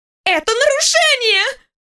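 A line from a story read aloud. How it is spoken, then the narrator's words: Shriek. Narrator (Russian): взвизгнула Алия, сгибаясь пополам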